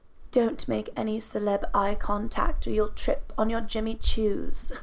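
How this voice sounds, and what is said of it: Put-on British accent. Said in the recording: “beautiful, British ... You're so talented ... your accent work.”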